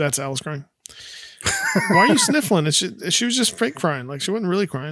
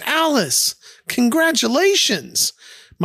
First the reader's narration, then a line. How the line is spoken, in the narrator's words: Carol gets super excited and exclaims